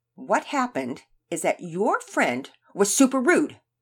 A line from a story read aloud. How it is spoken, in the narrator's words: Sophia snapped